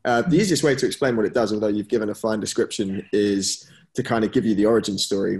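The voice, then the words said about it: London English accent. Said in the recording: “As you can probably tell from the accent, I'm based over in London, grew up here”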